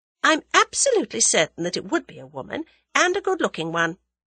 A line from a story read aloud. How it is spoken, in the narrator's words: replied Tuppence calmly